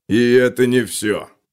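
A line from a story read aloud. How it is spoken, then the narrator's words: Stone grumbling. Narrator (Russian): проворчал плоский камень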